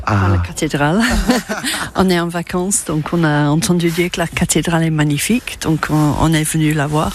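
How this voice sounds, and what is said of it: British accent speaking French. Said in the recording (French): “un accent so British”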